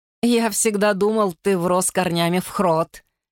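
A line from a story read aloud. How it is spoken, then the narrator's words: Giggled. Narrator (Russian): хихикнул Вулф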